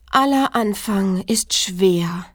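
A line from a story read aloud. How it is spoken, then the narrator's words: Sigh. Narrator (German): seufzte es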